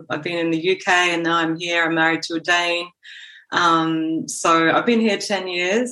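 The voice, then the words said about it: Australian accent. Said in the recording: “you can hear I'm not Danish by my accent. So I'm Australian”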